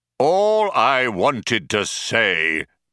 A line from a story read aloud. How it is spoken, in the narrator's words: bellowed the computer